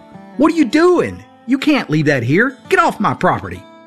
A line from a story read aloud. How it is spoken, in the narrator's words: Many times, property owners would run out and yell